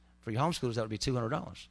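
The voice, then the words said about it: Speaks very fast. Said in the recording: “I said that so fast.”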